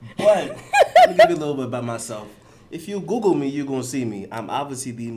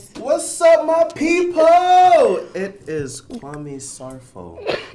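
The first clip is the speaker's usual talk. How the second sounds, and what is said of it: Loud yelling voice. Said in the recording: “sorry, I'm yelling.”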